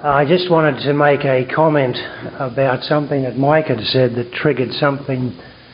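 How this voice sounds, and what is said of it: Australian English accent. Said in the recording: “I've got an Australian accent.”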